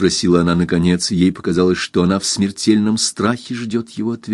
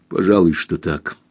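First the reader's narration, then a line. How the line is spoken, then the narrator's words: Gloomy reply. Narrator (Russian): мрачно ответил он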